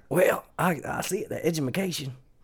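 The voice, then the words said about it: Bad impression of another person's voice. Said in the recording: “That's the worst George Bush impersonation... Horrible.”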